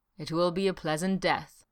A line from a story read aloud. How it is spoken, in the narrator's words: Esca promised gravely